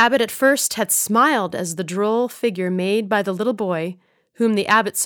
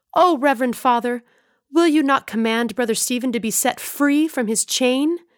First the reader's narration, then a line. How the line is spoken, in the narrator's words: in such haste eagerly burst out